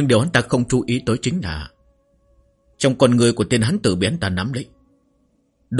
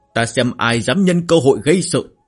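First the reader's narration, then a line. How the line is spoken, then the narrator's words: Loud shout. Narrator (Vietnamese): lên cao hét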